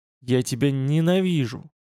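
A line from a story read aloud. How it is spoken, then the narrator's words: Angry, inaudible whisper. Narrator (Russian): Зло прошептал Шеннон, не слышно для остальных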